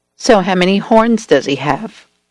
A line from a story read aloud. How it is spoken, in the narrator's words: I asked